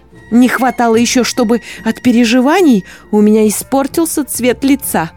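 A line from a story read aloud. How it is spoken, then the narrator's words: Words through teeth. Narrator (Russian): процедила герцогиня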